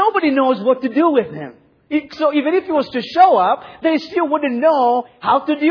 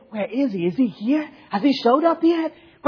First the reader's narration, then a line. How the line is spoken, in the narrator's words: whispering and saying